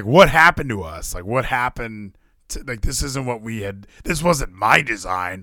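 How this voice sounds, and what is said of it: Imitates another person's voice. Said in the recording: “I can't do an Eric Young impression.”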